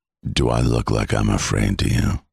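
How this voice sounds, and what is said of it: Deep gravelly vocal-fry character voice. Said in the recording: “I'm playing Reacher ... the whole vocal fry kind of thing ... the deeper you go into your register”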